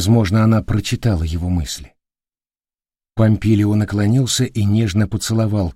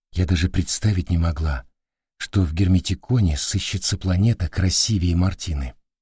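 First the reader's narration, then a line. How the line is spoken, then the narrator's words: Quiet. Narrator (Russian): тихо сказала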